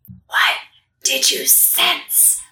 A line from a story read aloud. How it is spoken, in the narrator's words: Stage whispering